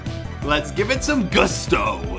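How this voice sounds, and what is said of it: Put-on accent. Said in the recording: “trying to do an accent.”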